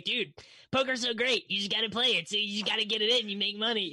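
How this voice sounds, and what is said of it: Imitates another person's voice. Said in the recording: “How are both of your guys' impersonations for each other the exact same?”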